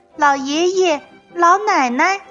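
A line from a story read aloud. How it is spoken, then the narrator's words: Sweet little fox voice. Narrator (Chinese): 小狐狸甜甜地叫了一声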